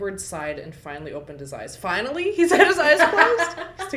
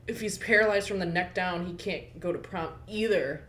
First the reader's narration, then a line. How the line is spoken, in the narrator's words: I muttered